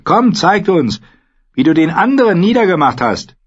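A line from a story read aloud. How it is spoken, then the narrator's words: Called out. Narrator (German): rief er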